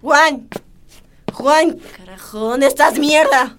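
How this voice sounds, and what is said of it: Drunken shouting. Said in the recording (Spanish): “¡Otra vez borracha! ... no grites ... No grites.”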